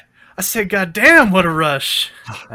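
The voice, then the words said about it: John Travolta impression. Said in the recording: “do a John Travolta impression ... That was probably bad.”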